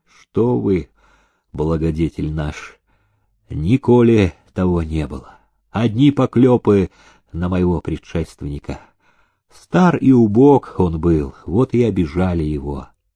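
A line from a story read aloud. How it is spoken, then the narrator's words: Sad, muffled reply. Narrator (Russian): печально, глухо отозвался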